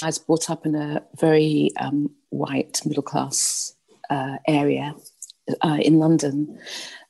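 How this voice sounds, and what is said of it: Well-spoken middle-class British accent. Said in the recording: “You've got a British accent ... that's the accent they're well-spoken, middle-class, well-spoken”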